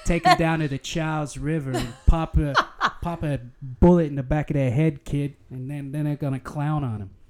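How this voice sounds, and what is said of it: Put-on Boston accent. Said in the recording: “can I read it in a Boston accent?”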